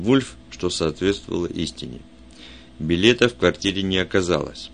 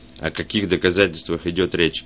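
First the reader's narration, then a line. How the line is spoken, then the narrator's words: Plain. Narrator (Russian): спросил Арчер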